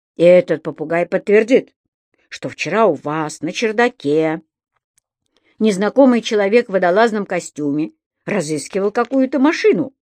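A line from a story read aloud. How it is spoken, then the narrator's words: Menacing question. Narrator (Russian): грозно спросил полицейский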